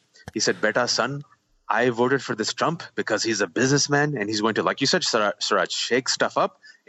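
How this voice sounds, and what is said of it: Put-on South Asian uncle accent. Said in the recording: “a Muslim South Asian uncle ... I can do this accent”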